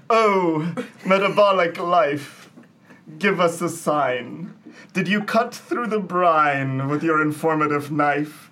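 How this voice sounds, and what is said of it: Dramatic poetry-reading voice. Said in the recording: “in my dramatic voice”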